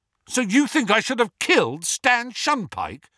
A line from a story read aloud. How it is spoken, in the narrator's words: said Harry angrily